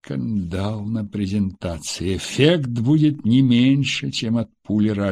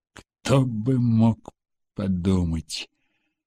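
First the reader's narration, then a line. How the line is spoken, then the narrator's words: Through clenched teeth. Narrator (Russian): сказал сквозь зубы Потапов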